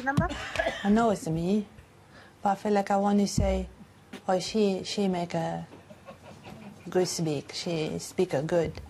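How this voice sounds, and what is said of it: Chinese-sounding foreign accent. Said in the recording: “she woke up with a Chinese accent. It is a British lady ... left her with a voice she didn't recognize ... foreign accent syndrome”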